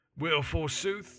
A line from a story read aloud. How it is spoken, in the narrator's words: grunted Dunn